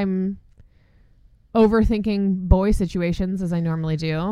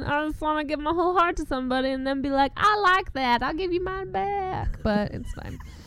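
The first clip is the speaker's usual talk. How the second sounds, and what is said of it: Put-on Southern US accent. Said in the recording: “What accent was that? ... Southern. ... I mean, it is maybe could be somebody somewhere in the South's accent, I guess.”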